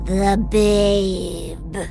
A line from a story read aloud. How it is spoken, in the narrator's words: she growls